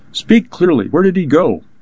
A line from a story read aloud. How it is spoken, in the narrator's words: Agostino gasped out